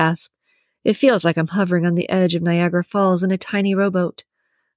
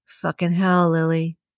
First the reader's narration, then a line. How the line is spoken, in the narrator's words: groans in my ear